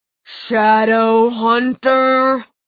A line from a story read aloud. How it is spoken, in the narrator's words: it snarled